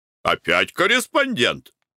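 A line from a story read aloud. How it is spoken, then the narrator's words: Exclamation. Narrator (Russian): воскликнул Николай Иванович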